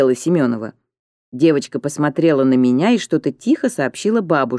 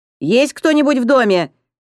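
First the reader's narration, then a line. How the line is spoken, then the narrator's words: Startlingly loud shout. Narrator (Russian): закричала Семенова так, что я вздрогнула всем телом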